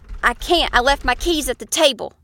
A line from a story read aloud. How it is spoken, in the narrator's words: he yelled